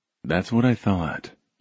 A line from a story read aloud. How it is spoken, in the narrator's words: he murmured